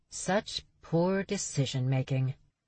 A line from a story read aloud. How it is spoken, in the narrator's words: Charlie muttered